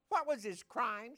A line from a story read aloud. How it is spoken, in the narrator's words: Simon asked